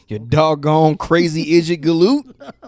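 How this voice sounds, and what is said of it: Old prospector character voice. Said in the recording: “talk like an old prospector ... I love swearing like an old prospector”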